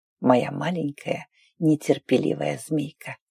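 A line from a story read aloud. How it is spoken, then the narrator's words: Whisper against lips. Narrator (Russian): прошептал уже в губы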